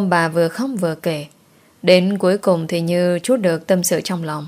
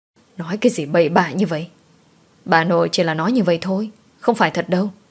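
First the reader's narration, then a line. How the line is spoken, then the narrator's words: Stern, then coaxing. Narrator (Vietnamese): Mẹ chồng của tôi gằn giọng rồi khuyên nhủ tôi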